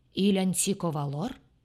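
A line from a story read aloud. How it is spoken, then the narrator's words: Deep-voiced proclamation. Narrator (Russian): провозгласил он басом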